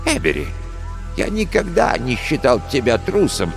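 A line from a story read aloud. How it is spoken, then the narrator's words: Gentle. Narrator (Russian): мягко сказал доктор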